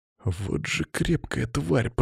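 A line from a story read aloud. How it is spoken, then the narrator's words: Whisper. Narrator (Russian): прошептал я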